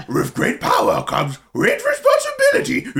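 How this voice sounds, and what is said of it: Tom Holland as Scooby-Doo impression. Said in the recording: “Tom Holland as Scooby ... He does voices. He does the voices”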